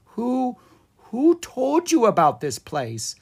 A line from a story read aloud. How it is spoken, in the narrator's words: Owen asked nervously